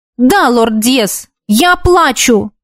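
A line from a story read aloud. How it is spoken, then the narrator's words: Sharp reply. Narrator (Russian): резко ответила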